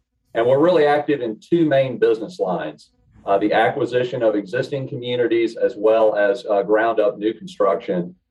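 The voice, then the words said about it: Southern US accent. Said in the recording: “You can tell by my accent, I'm a native Southerner.”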